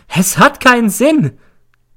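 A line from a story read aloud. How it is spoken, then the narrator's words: Shrieking. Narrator (German): kreischt sie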